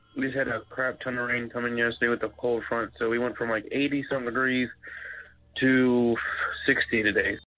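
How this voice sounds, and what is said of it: Congested, stuffy-nosed voice. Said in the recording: “Excuse my voice. ... My sinuses are all jacked up.”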